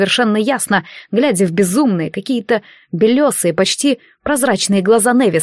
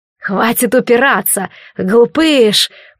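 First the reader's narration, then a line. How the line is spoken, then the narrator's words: Hissed. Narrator (Russian): прошипел Невис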